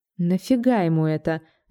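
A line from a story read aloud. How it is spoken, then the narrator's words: Thoughtful question. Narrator (Russian): задумчиво спросила я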